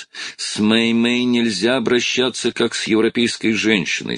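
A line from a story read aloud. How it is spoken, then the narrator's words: Plain. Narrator (Russian): сказал он себе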